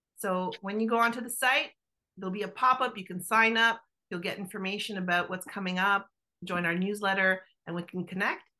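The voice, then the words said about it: Italian Canadian accent. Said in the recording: “my Italian Canadian accent sometimes makes it sound different”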